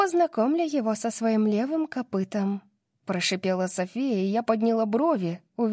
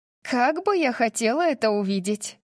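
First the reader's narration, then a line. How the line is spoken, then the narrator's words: Laughing. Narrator (Russian): Засмеялась Тори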